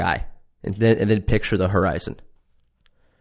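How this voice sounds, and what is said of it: Usual voice. Nothing is said of it.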